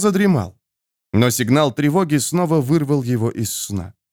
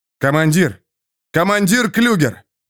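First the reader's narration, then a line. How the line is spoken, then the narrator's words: Shout. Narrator (Russian): крикнул Джо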